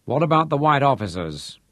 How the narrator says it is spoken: asked

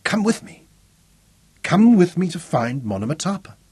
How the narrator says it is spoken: Zuga exclaimed suddenly

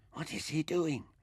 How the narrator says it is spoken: Mintaka whispered

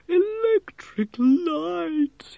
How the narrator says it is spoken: moaned

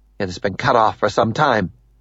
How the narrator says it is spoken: Ninomaya says curtly

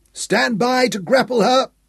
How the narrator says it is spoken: Hal cried

